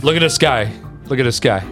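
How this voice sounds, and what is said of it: New Jersey accent. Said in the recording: “Again with the Jersey accent, bro.”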